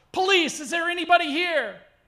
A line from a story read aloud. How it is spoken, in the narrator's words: we yell